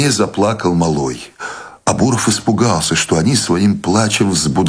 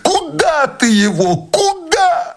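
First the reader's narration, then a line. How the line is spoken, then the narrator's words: Quiet inconsolable sobbing. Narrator (Russian): Она зарыдала не громко, но страдальчески и безутешно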